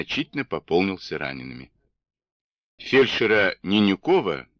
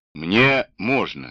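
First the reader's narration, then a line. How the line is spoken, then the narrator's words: Plain. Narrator (Russian): сказал барон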